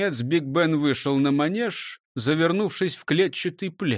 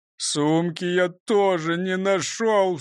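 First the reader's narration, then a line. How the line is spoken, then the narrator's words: Sobbing. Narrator (Russian): всхлипнул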